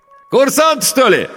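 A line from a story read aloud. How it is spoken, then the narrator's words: Ringing shout. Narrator (Russian): звонко крикнул водитель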